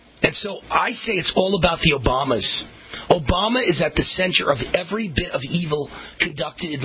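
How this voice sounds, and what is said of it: Usual voice. Nothing is said of it.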